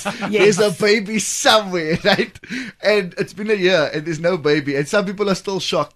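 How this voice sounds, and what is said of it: Coloured community accent. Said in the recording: “given my accent, I am colored”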